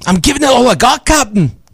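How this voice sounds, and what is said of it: Impression of Scotty from Star Trek. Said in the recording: “I could do Scotty from Star Trek ... It's pretty good. That's pretty good.”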